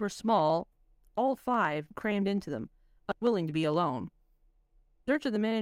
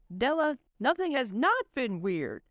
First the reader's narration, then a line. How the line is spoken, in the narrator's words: exclaimed Lamont